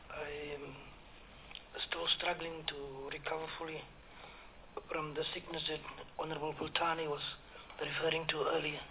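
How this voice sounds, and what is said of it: Hoarse, croaky voice. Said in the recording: “My apology for my voice. I've got a frog in my throat.”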